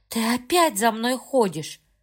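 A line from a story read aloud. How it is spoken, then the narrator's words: Sighing. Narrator (Russian): вздохнула девушка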